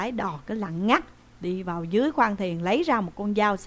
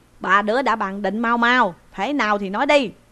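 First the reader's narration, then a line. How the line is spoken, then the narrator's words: Old ferryman shouting. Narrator (Vietnamese): Lão lấy đò quát lên rằng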